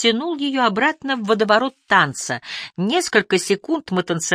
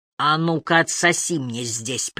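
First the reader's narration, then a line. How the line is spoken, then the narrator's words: Hoarse command. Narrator (Russian): приказал он хрипло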